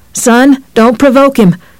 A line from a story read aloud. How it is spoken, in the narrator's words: his father called in a high, scared voice